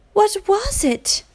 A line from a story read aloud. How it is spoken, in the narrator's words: all the girls cried